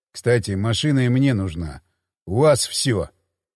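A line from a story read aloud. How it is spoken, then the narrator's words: Gloomy. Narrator (Russian): мрачно сказал Хмель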